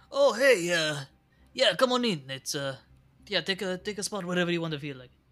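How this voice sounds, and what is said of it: Character voice with Italian accent. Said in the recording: “I don't think Angela had an Italian accent, but I love it. ... My Italian accent's not”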